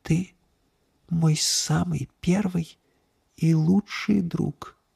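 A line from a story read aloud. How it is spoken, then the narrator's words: Smiling female whisper. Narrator (Russian): Улыбнувшись, она шепнула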